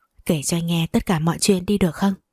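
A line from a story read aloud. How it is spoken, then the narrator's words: Soft, into her ear. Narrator (Vietnamese): Mộc Du Dương rồi cúi đầu nói khẽ vào tai cô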